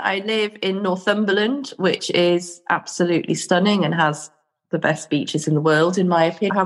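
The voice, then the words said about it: Voice with a cold. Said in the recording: “I've got a bit of a cold, so if I start coughing”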